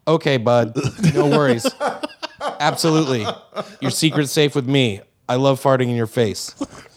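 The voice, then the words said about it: Imitates another person's accent. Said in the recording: “he's got my accent”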